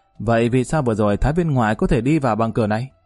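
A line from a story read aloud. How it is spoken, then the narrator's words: Sudden anger. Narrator (Vietnamese): Lý Kỳ vừa nghe, nhất thời giận dữ, hướng nam tử trung niên nói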